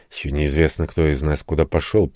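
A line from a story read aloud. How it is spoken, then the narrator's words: Muttered. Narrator (Russian): пробормотал я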